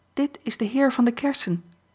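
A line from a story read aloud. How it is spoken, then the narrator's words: Calling out. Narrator (Dutch): riep ze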